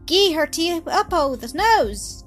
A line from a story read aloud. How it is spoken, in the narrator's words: Donald shouted in terror